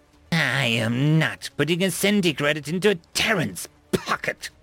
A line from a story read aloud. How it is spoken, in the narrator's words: the Zanic sneered